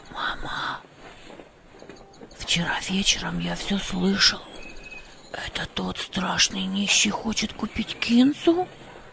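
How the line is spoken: Whispered. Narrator (Russian): прошептал Хамид

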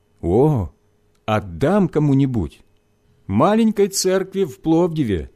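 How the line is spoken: Plain. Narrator (Russian): сказала его жена

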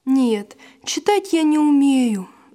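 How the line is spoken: Sighing. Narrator (Russian): вздохнул Василь

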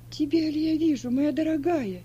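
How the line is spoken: Exclaiming. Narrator (Russian): воскликнула Сильва

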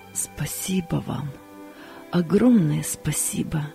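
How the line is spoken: Voice trembling with emotion. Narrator (Russian): дрогнувшим голосом произнес он

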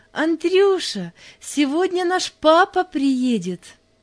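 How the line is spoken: Joyful. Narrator (Russian): радостно сказала

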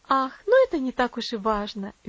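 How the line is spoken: Cheerful remark. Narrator (Russian): весело заметила миссис Мюррей

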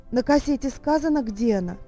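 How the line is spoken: Anxious. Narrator (Russian): взволнованно спросил мистер Джонс

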